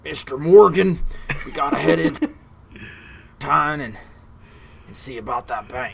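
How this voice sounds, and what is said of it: Red Dead character voice impression. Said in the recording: “I don't think that impression would be too bad”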